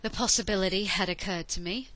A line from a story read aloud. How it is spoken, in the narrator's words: Jack agreed with a sigh